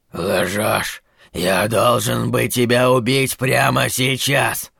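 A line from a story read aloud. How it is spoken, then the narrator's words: Painful rasping. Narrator (Russian): хрипел Кларет, словно каждый слог давался ему с болью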